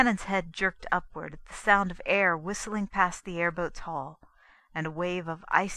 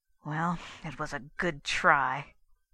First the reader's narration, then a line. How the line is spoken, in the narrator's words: he said bitterly